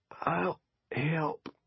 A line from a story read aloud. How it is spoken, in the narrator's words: he wheezed